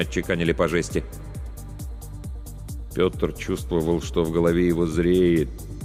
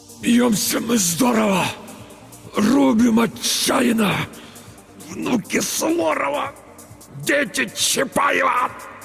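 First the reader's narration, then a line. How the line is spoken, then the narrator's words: Weak strained utterance before fainting. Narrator (Russian): Только и смог выдавить Петр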